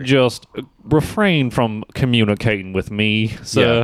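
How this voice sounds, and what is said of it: Put-on accent, character voice. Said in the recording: “I totally like your fucking accent”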